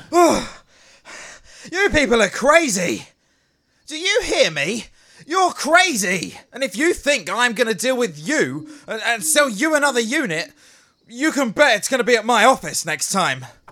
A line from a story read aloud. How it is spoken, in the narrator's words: he yelled